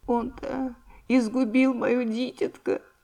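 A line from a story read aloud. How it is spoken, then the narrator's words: Sobbing mother. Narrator (Russian): промолвила всхлипывая мать Анюты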